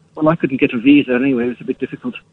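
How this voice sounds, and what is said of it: Unconvincing put-on Irish accent. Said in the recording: “maybe you could have worked on the accent a little bit better, or phoned in using one that you could actually do... You sounds like you're from Pakistan... Go on, doing your real voice”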